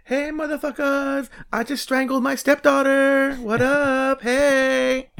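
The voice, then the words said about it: Impression of young people talking. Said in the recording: “that's my impression of how young people talk.”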